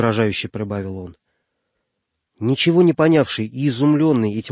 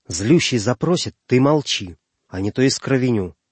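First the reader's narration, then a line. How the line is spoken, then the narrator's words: Barely audible sharp command. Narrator (Russian): чуть слышно сказал ему резким повелительным тоном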